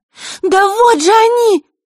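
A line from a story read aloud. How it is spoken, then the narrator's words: Frightened cry. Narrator (Russian): вскрикнула она, в страхе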